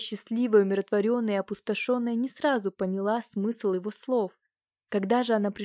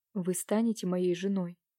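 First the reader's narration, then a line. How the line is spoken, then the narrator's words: Inspired whisper. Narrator (Russian): он вдохновенно прошептал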